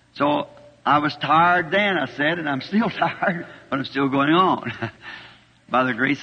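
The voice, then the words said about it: Slightly hoarse voice. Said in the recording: “I'm just a teeny bit hoarse. Of course, that's from speaking much.”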